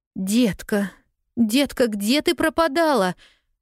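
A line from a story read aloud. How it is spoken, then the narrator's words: Exclamation. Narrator (Russian): воскликнула миссис Кэррио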